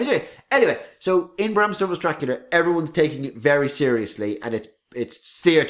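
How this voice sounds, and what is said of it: Usual voice. Nothing is said of it.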